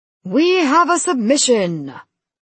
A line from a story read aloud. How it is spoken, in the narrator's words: the announcer roared rather dully, like he wanted more blood